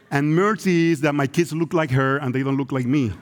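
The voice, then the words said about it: Spanish-accented English. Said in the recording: “I hope my accent is not a distraction, but my accent is a reminder of the unity ... investing in Spanish-speaking brothers”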